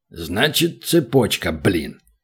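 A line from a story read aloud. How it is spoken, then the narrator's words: Thoughtful mutter. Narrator (Russian): задумавшись, пробормотал гном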